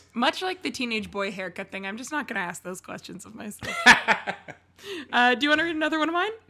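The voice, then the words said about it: Hoarse, strained voice. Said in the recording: “I went primal screaming on Sunday and still have not recovered... I've screamed so loud I lost my voice”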